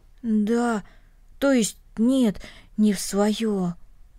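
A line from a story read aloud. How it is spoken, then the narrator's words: Muffled, hollow voice. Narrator (Russian): глухо произнес Денис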